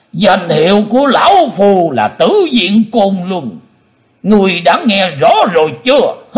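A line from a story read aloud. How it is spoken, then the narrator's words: Old man's hateful roar. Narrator (Vietnamese): Lão nhân mặt đỏ, máu hận thù gầm to lên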